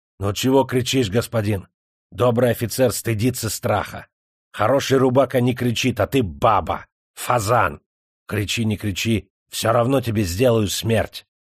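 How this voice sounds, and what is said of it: Ominous, menacing delivery. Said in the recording (Russian): “зловеще проговорил татарин”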